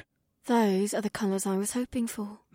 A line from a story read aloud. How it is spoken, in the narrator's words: my wife whispered to me